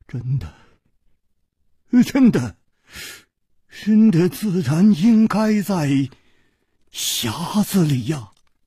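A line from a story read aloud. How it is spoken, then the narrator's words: Trembling voice. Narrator (Chinese): 公子金半花的面色 又变了，他颤声说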